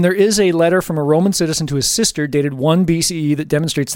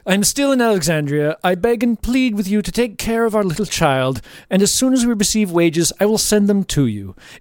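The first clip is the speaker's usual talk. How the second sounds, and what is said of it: Snooty aristocratic voice. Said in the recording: “You just have to do Sir Laurence Olivier, because he's pretty much like every great Roman and Greek figure. So just a snooty aristocratic.”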